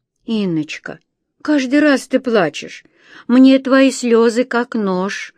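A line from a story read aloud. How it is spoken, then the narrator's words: Reproachful grandmother. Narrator (Russian): Укоризненно бабушка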